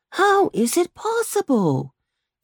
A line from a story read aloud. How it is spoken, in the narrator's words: exclaimed one of the two lads